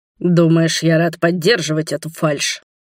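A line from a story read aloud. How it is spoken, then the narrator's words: Dragon's growl. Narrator (Russian): рыкнул дракон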